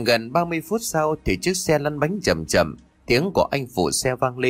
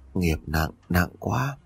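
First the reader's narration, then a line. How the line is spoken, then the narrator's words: Tongue-click, soft. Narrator (Vietnamese): Bà cô tặc lưỡi rồi khẽ nói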